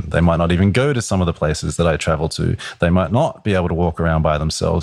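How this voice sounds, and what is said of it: Australian accent. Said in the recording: “where's that accent from? ... which part of England are you from? And I'll say Australia”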